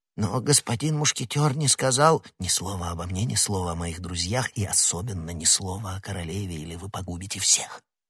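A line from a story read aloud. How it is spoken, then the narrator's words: Whispered. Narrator (Russian): прошептал Д'Артаньян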